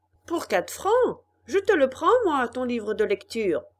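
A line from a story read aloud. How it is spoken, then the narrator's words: Ragpicker shouting. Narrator (French): cria un chiffonnier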